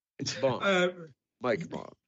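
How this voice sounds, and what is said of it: Put-on suave spy accent. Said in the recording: “That's not the right accent.”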